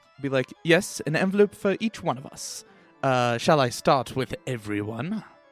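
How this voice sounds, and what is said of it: Put-on accent. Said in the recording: “I can't sustain this voice ... drop the accent.”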